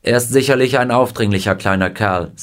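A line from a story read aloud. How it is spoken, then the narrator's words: Plain. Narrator (German): sagte sie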